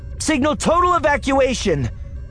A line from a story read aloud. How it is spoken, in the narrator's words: Leia shouts to the general